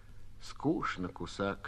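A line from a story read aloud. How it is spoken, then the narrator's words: Quiet remark. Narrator (Russian): тихо проронила Лёля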